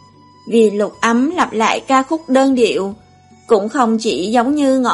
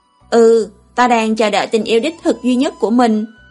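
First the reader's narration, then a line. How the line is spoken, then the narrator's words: Sighing speech. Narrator (Vietnamese): Lâm Triều Hy chợt thở dài một tiếng nói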